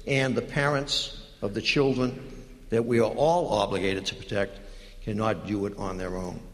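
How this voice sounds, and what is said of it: Boston accent. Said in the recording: “Especially that Boston accent.”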